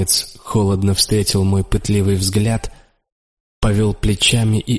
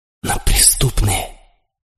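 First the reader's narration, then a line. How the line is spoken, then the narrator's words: Whispered. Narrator (Russian): шепнул я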